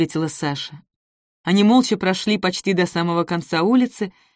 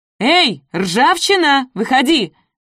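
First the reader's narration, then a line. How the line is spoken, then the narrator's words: Dashing shout. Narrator (Russian): Залихватски крикнула Саша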